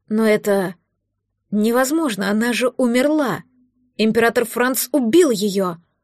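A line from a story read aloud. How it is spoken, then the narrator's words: Confused whisper. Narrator (Russian): растерянно прошептал граф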